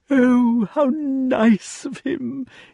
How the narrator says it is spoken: exclaimed the king again

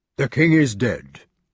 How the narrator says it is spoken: said Sir Grummore solemnly

